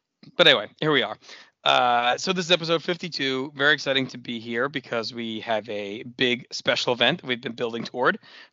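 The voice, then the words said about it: Rough, raspy hoarse voice. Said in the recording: “So I apologize for my voice. It sounds like I ate some of Axel Rotten's broken glass”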